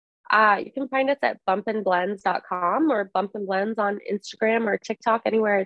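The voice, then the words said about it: Slightly congested voice. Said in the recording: “I have a little cold.”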